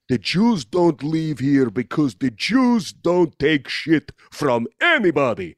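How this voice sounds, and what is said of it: Put-on Polish accent. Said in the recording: “I did a weird, not good ... I feel like that Polish was nailed ... it was a fucking accent.”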